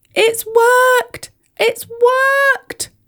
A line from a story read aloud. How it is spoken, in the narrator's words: cried